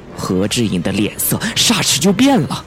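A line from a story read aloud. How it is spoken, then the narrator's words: Stammering. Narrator (Chinese): 他结结巴巴的说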